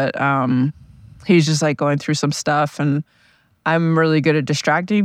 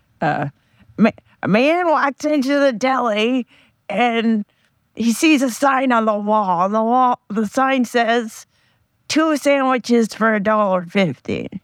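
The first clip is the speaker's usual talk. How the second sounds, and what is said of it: Imitating a Gilbert Gottfried impression. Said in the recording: “doing a Gilbert Godfrey impression that was not very good ... I want to do an impersonation of him doing a Gilbert Godfrey impersonation ... I'm going to try to impersonate my friend telling the joke. It's going to be bad”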